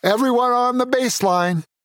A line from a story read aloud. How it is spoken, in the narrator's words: he shouted